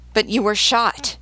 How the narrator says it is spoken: he exclaimed

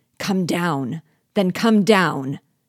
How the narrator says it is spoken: Habibra, fearing that I might yet be saved, foamed with rage and cried

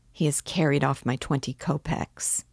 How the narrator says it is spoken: Raskolnikov murmured angrily

